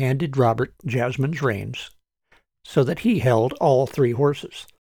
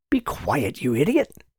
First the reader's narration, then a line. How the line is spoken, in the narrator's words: Martin whispered